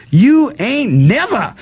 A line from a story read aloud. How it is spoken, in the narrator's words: Detta screamed